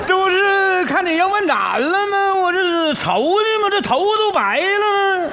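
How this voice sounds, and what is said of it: Huludao regional Chinese accent. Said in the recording (Chinese): “你咋还葫芦岛口音呢？”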